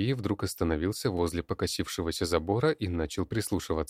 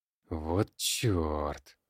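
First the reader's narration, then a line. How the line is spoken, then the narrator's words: Sighing. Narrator (Russian): Вздохнул Сергей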